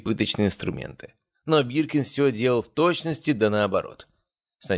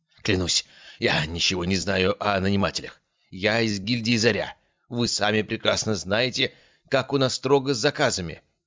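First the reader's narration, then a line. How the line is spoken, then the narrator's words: Prisoner groaning. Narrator (Russian): простонал пленник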